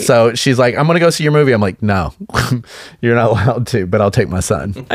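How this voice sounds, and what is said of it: Kentucky Southern American accent. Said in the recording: “If you can't tell by my voice, I'm not from California. I'm from Kentucky.”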